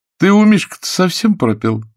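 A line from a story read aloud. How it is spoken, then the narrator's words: Laughing. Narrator (Russian): засмеялась Мария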